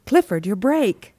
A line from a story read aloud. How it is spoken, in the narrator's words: cried Connie